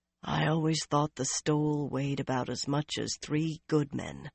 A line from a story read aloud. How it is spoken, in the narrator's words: Swan said quietly